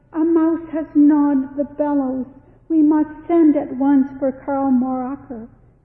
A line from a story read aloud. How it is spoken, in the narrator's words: he cried